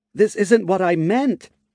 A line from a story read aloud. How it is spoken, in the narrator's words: Petra shouted, as explosions once again began to ring out in her ears